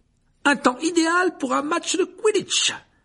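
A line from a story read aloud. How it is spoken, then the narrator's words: Enthusiastic exclamation. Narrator (French): s'exclama Dubois avec enthousiasme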